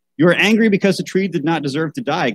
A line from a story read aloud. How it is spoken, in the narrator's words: God said